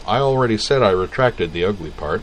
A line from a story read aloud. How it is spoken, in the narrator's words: He laughed, but not harshly, and said